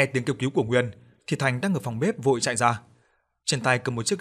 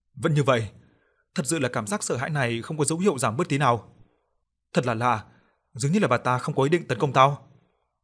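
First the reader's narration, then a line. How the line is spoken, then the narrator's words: Panicked, breathless. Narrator (Vietnamese): Nguyên hốt hoảng thở hổn hển, mới nói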